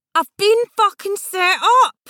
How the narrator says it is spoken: shouted again, his voice wasn't so loud

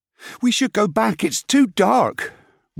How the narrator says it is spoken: Wig moaned

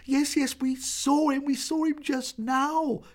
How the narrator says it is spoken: cried the girls

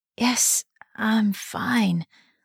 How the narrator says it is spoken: muttered

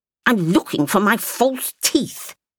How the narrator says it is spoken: she added angrily

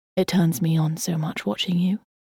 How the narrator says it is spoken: murmured Jonathan

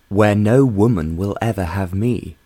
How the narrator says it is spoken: John declared firmly

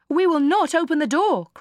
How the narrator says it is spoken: cried they

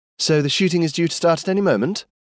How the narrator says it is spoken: Skye mocked

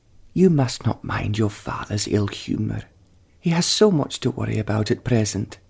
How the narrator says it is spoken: she said, tenderly

